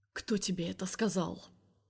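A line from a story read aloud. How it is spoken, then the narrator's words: Quiet question. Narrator (Russian): спрашивает он тихо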